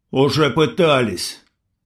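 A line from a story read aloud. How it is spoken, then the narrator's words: Angry reply. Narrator (Russian): сердито ответил индеец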